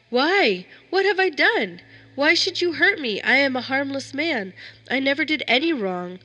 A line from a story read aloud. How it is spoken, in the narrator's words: cried out